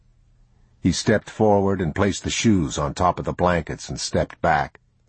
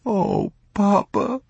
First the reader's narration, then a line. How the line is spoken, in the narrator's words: he sobbed